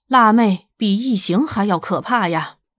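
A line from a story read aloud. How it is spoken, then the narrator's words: Sighing exclamation. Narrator (Chinese): 他忍不住感叹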